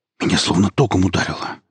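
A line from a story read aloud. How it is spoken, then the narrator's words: Whisper. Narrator (Russian): прошептал он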